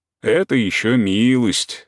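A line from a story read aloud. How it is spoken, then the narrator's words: Mocking. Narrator (Russian): говорит Корней насмешливо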